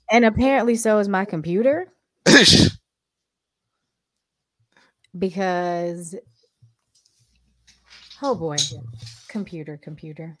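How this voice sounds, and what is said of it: Tired, low-energy voice. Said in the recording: “if you guys cannot tell by my voice, I am losing steam. I am exhausted.”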